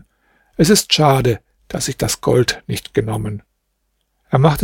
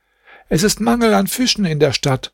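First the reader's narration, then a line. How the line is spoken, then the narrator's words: Woman shouting. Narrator (German): eine Frau, welche schrie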